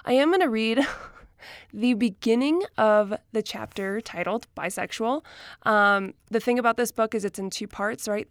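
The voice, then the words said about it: Out of breath voice. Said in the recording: “I'm out of breath because I'm getting over being sick”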